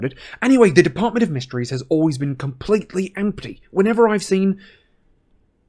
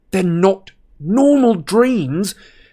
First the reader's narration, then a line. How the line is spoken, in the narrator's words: Harry shouted in her face